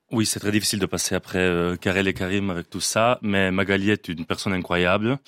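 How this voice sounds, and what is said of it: Italian accent, sensual voice. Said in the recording (French): “cette voix qu'a ... l'accent ... L'accent italien ... L'irrésistible accent ... ça a beaucoup de sensualité”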